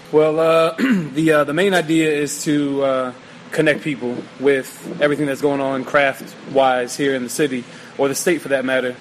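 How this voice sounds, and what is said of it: Baltimore accent. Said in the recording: “we'll get into that accent. I mean, you know, from Baltimore.”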